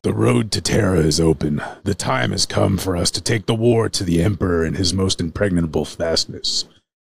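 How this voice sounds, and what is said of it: Horus character voice. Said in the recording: “in your best Horus voice”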